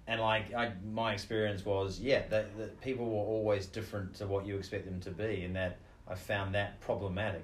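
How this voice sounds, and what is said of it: New Zealand accent. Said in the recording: “you're a New Zealander? Do you warn them about your accent?”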